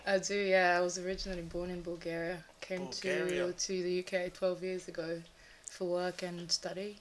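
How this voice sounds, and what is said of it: Foreign accent. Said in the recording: “so you got an accent”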